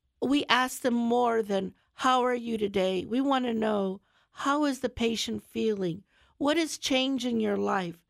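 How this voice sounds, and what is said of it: Stuffy, congested voice from a cold. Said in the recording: “I sound a little different today, I have a bit of a cold ... if I sound a little stuffy”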